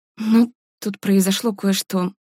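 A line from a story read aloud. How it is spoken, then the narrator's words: Uncertain mumble. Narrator (Russian): неуверенно пробормотала Варя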